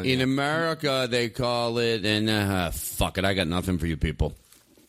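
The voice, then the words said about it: Impression with Russian accent. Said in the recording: “a hilarious Russian accent ... I do impersonation of him”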